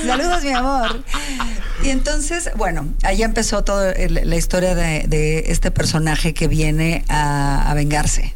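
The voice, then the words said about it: Slight Argentine Spanish accent. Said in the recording (Spanish): “nos fuimos a trabajar a Argentina y es que se me pega el acento, ¿ves? ... Se me pegan varias cosas de Argentina”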